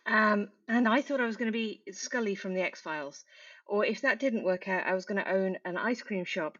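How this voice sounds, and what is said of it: British accent. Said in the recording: “As you can tell by the accent, like many Kiwis, I wasn't born here. I was born in the UK near Birmingham.”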